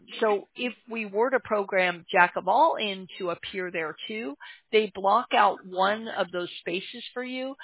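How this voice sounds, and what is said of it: Hoarse, strained voice cracking. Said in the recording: “I'm losing my voice. I'm sorry if I crack on you.”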